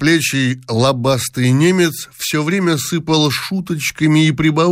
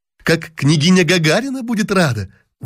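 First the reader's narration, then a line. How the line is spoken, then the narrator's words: Exclaiming. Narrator (Russian): воскликнула Дашенька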